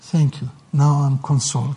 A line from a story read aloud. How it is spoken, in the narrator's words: he said